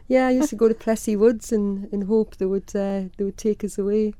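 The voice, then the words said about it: North East English accent. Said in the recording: “as your accent gives away, you are originally from Birtley, which is near Durham”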